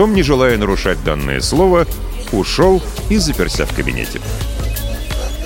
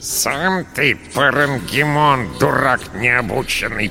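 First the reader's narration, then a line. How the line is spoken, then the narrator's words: Creaky rat voice. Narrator (Russian): проскрипела крыса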